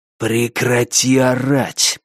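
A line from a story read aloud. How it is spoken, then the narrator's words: Hissing. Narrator (Russian): прошипел он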